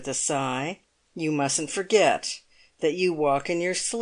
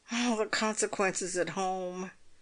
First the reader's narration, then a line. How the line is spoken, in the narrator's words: groaned Pocket